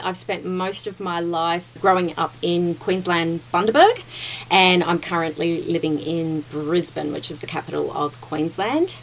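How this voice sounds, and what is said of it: Australian accent. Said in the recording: “if you can't tell from the accent. Yes, I am Australian.”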